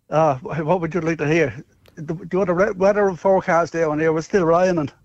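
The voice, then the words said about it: Genuine Irish accent. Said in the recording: “This is an Irish accent... he is proper Irish. That is full-blown Irish right there.”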